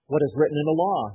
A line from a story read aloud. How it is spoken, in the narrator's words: he replied